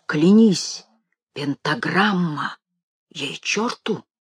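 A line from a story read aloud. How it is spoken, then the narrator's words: Whisper. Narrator (Russian): Семен Матвеев прошептал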